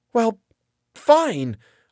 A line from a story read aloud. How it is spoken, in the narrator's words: I exclaimed